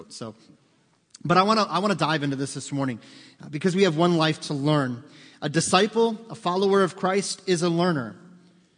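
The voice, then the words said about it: Hoarse, froggy throat. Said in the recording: “I'm pretty sure half the grass is in my throat ... talking like I have a frog in my throat”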